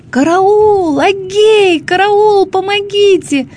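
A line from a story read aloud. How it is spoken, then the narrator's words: Piercing scream. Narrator (Russian): закричала она пронзительным голосом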